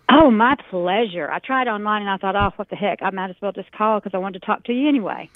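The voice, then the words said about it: Authentic Texas accent. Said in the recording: “this is an authentic Texan with an authentic Texas accent.”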